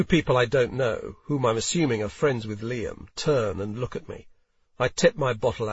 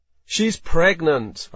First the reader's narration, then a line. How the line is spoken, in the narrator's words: I say, a little more loudly than I intend to